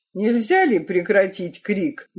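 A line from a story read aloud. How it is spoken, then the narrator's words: Rude, harsh. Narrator (Russian): грубо говорит он Дорзиту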